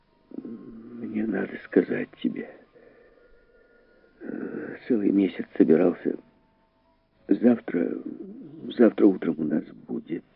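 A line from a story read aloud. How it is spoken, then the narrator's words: Whispered repetition. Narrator (Russian): шепотом повторил он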